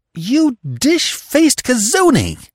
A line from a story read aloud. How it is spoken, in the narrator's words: exclaimed heatedly, her voice trembling with a sense of ill usage